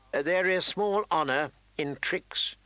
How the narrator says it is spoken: the old man said stiffly

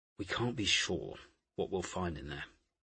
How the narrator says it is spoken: Poole muttered

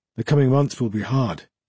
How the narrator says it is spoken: Canis went on with a sigh

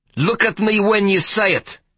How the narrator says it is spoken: he barked

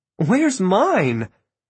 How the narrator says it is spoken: Maureen laughed

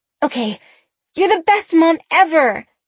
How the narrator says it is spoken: Sabrina cried

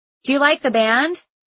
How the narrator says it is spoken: I yelled to Lucas

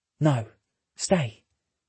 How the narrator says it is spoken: Cady whispers

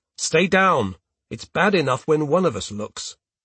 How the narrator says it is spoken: I tell him sharply

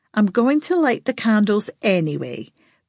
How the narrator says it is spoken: Bertie said firmly

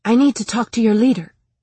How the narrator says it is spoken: I said, aware that my voice was shaking

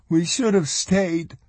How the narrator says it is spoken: Mona Ramsey wailed

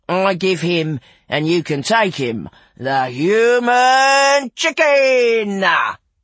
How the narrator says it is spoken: intoned Buffo

